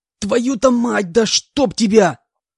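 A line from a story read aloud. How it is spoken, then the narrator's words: Full-throated yell of pain. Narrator (Russian): Заорал я во всю глотку, не в силах сдержаться от новой вспышки боли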